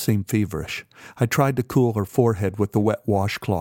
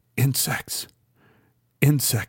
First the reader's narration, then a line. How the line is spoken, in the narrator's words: she whispered